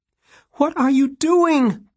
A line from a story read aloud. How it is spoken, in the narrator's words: Plum shouted after him